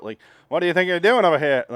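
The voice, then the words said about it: Over-the-top 1930s newsy girl voice. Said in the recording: “Jennifer Jason Lee doing like a 1930s newsy girl ... she's doing that voice. And it's over the top”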